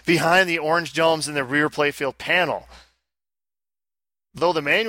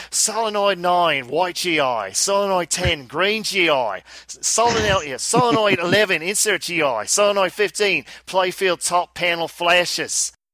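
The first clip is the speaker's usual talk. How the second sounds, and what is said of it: Put-on Australian accent. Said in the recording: “you got to do it in the Australian accent ... I'll drop the accent”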